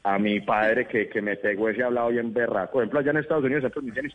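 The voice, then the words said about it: Strong Medellín Colombian accent. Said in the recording (Spanish): “ese acento, ese acento demasiado marca ... parece que uno estuviera hablando con alguien que estuviera en Medellín todo el tiempo”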